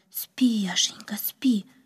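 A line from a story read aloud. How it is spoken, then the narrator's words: Whisper. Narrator (Russian): прошептала она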